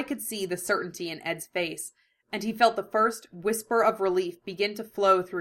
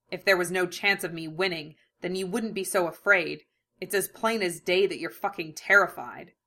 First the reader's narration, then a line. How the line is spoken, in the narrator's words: a feral grin twitched on his lips as he snarled